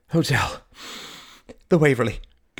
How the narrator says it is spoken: gasped Mary

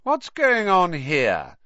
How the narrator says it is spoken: came the cold, drawling voice of Draco Malfoy

